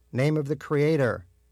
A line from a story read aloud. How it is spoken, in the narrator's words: Rabbi Breyer shouted